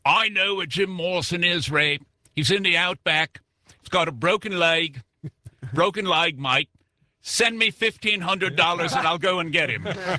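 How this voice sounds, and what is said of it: Put-on Australian accent. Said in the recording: “I get a letter from Australia. I know. You can just imagine the accent.”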